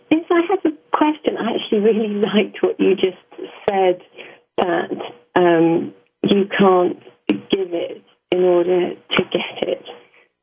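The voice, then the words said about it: English accent. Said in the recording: “I'm in Oxford, England. ... I love your accent. ... We love your accent.”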